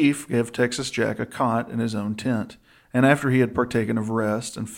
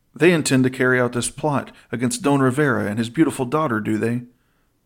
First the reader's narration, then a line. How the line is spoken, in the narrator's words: Don Ronaldo cried